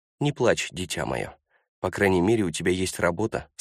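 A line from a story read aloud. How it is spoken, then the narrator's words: Plain. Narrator (Russian): сказала она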